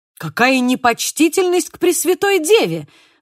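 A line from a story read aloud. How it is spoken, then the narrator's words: Exclamation. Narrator (Russian): воскликнул Зорро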